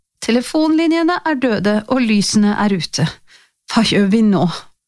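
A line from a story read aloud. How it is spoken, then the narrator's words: Tired voice. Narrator (Norwegian): sa hun med sliten stemme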